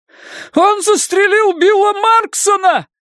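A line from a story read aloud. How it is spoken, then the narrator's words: High piercing male yell. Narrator (Russian): завопил мужчина высоким, пронзительным голосом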